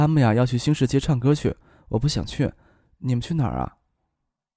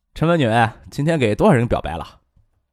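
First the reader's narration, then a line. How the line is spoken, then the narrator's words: Joking. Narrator (Chinese): 石学兵……开玩笑说道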